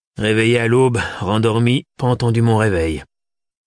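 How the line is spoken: Grumpy. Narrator (French): résuma Macaire d'un ton bougon

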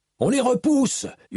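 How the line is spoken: Screamed. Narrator (French): hurla-t-il

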